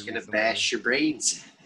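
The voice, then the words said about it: Jack Nicholson impression from The Shining. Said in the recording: “That's a pretty good impression”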